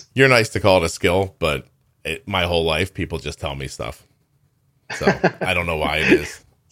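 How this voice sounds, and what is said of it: Deep male speaking voice. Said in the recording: “my deep voice”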